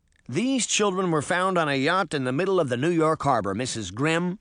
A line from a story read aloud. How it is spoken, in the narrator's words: Peter said sternly